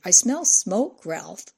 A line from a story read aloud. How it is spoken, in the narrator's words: Cindy said angrily